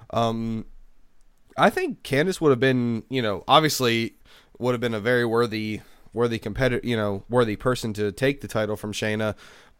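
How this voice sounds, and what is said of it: Nasal, congested voice from a cold. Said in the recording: “I'm sorry if I sound a little off this week on the show. I'm dealing with a little bit of a nasal chest cold, so that's why if I sound weird.”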